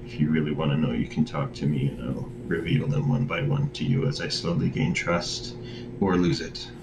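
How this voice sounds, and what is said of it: Quiet, downtrodden voice. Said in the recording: “I'm speaking quietly ... my voice is so downtrodden”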